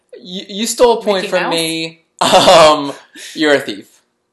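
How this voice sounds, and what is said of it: Put-on foreign accent. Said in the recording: “I don't know what accent I'm doing”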